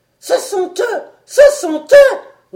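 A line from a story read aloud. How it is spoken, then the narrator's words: Roaring. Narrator (French): rugit-il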